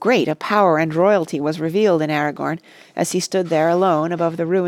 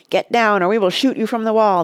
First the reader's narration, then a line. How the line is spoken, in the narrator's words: they cried